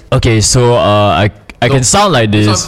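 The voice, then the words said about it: Deliberately altered, forced-sounding voice. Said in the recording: “Sounds fake. ... It feels forced.”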